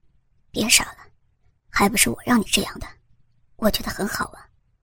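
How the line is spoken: Moved, gentle. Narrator (Chinese): 李健心中感动，柔声说道

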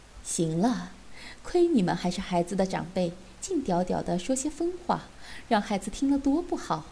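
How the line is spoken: Coquettish laugh. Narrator (Chinese): 大姨妈娇笑道

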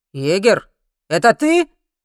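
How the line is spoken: Man shouting. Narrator (Russian): крикнул мужчина со шрамом

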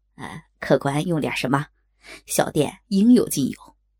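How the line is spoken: Smiling waiter. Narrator (Chinese): 小二笑道

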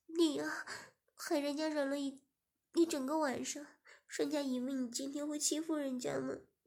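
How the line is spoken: Crying. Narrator (Chinese): 施雅哭着说

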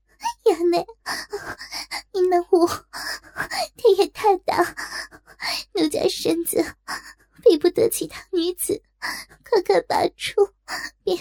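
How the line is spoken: Tearful, ashamed pleading. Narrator (Chinese): 他泪蒙双眼，羞不可当，只得哭泣告饶

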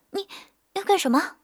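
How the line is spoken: Breathless, pinned down. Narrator (Chinese): 谢雨时被压得差点没喘过气来

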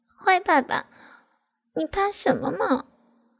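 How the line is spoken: Soft whisper. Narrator (Chinese): 我贴着他的耳边小声地说

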